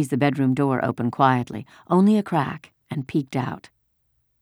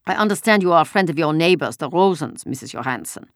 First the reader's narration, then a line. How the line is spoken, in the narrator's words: said angrily